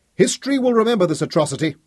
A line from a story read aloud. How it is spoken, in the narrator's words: screamed Fergus